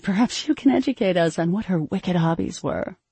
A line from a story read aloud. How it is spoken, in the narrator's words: Kuntanya asked with a lilting laugh